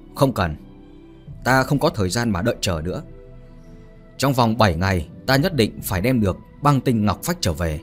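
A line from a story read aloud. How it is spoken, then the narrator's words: Cold speech. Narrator (Vietnamese): Phương Tử Vũ lạnh lùng mà nói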